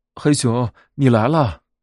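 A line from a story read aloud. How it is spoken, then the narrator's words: Joyful shout. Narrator (Chinese): 他惊喜的大叫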